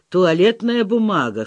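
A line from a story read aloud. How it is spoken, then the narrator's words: Snort. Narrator (Russian): хмыкнул Вася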